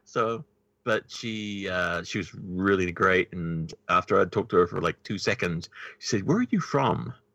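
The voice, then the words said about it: New Zealand accent. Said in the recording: “New Zealand ... she picked up on my accent right away.”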